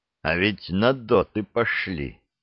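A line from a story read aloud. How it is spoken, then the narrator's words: Through gritted teeth. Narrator (Russian): проскрипел зубами Громов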